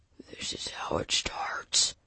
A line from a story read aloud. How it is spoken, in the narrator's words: he whispered